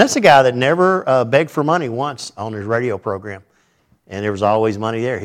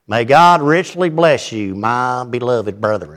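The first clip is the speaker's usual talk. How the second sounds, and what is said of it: Imitation of J. Vernon McGee's accent. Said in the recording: “you think I've got a southern accent... I've seen people with accents, but his is just”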